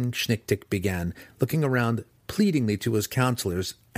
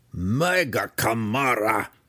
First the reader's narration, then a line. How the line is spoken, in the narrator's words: shouted Belwar